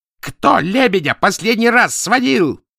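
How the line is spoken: Shout from doorway. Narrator (Russian): закричал Азадовский от двери

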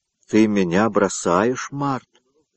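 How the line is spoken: Sad question. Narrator (Russian): спросил он печально

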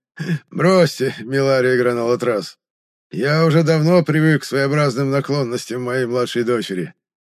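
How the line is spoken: Forced laugh. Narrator (Russian): наигранно рассмеялся экселленс Лине

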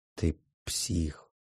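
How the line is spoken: Near-whisper repetition. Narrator (Russian): почти шепотом повторяю

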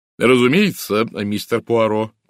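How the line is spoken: Booming. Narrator (Russian): прогудела леди Уэстхолм

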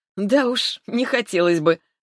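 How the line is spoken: Laughing. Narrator (Russian): рассмеялась я

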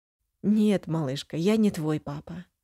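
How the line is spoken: Soft reply. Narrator (Russian): мягко отвечает Роберт

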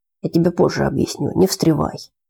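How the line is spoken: Plain. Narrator (Russian): и сказал Горланову

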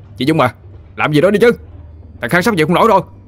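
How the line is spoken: Hysterical screaming. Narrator (Vietnamese): Nó gào lên một cách mất kiểm soát

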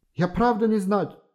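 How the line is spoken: Pleading. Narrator (Russian): Взмолился он

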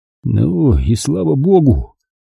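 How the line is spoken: Relieved sigh. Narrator (Russian): Он вздохнул с облегчением

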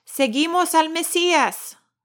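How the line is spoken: Shout. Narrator (Spanish): gritó

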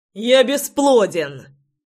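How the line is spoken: Shouting. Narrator (Russian): закричал я ей в спину

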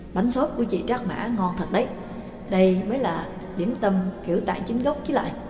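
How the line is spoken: Eager praise, mouth full. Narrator (Vietnamese): Trương Lập ăn uống nhồm nhòm, rối rít khen

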